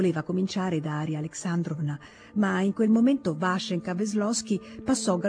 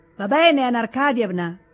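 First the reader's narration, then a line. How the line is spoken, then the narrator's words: Shouted. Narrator (Italian): gridò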